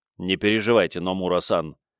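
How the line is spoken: Confident and completely calm. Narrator (Russian): ответил уверенно и совершенно спокойно

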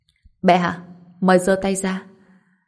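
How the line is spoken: Laughing speech. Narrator (Vietnamese): Anh bật cười rồi nói

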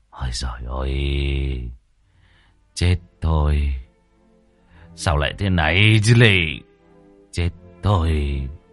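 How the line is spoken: Sighing mutter. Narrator (Vietnamese): Ông thở dài, miệng cứ lẩm bẩm

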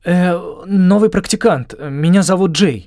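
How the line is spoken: Forced out. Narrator (Russian): наконец выдавил

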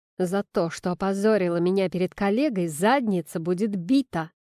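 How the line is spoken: Menacing speech. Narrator (Russian): грозно говорит он

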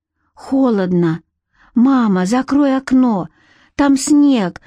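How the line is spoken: Sleepy whimper. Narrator (Russian): захныкал он, не открывая глаз

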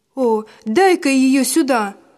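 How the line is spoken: Shout from darkness. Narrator (Russian): выкрикнул кто-то из темноты

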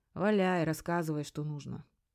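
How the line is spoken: Heavy sigh, weary. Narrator (Russian): тяжело вздохнув, сказал

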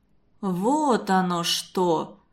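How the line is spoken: Drawled. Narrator (Russian): протянул Константин Семенович

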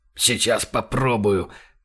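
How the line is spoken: Through gritted teeth. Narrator (Russian): Процедил Франц и охнул, ступив на раненую ногу

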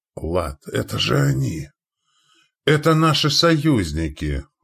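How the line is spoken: Exclaiming. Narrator (Russian): воскликнул Радко

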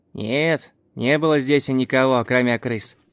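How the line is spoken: Deliberately loud. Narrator (Russian): Нарочито громким голосом сказал Хэнк Дэвис

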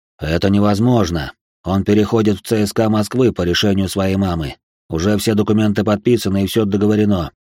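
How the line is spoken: Calm answer. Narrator (Russian): спокойно ответил полковник

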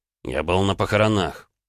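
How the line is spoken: Through teeth, interrupting. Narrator (Russian): процедил Ромка, перебивая нашего министра путей сообщений

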